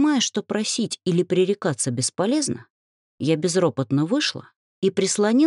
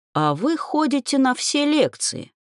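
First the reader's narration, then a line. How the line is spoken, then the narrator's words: Snide question. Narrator (Russian): ехидно спросил он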